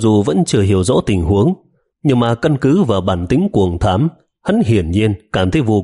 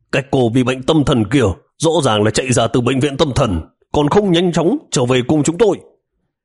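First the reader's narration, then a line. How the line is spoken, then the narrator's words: Man yelling loudly. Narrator (Vietnamese): Người đàn ông kêu gào quát to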